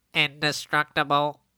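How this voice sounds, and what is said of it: Nasal, bad-microphone impression. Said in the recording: “That was my impression of what Omar's microphone sounded like earlier ... That also actually kind of sounds like Omar with the nasalness.”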